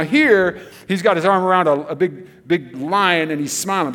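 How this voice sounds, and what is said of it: Usual voice. Nothing is said of it.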